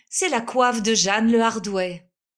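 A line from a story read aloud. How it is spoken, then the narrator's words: Exclaiming. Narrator (French): s'écria la mère Ingou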